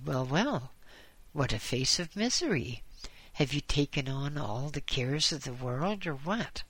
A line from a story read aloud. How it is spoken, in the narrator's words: The doctor laughed at him and said